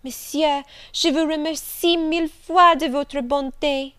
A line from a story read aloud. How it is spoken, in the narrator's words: exclaiming